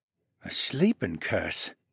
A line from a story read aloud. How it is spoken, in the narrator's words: He murmured and rubbed his chin in thought